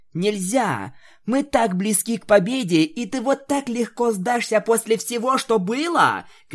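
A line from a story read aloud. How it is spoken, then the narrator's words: Shouting. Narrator (Russian): кричала пони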